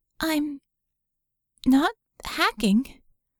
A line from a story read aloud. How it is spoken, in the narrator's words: squeaked